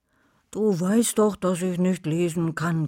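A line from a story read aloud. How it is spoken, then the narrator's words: Growling. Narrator (German): knurrte Wolfi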